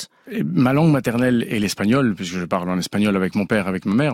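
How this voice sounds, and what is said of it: Passionate, energetic voice, slight accent. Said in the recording (French): “Dans votre voix, il y a beaucoup de passion. ... Il y a beaucoup d'énergie, mais il y a aussi un léger accent.”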